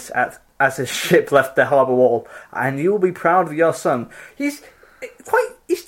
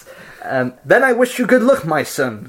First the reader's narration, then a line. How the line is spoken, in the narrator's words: cried his father